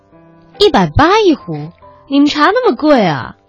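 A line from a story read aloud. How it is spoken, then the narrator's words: Surprised exclamation. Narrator (Chinese): 田青青一看就叫了起来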